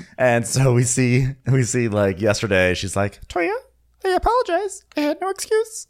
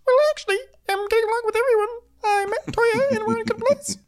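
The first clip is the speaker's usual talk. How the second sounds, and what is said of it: Heavenly impression in a Beaker voice. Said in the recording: “puts on her beaker voice”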